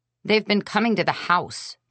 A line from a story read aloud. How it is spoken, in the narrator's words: I snapped